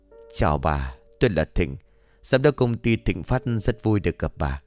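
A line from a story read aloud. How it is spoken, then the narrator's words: Polite friendly man. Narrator (Vietnamese): Ông Thịnh lịch sự, một cách thân thiện, nói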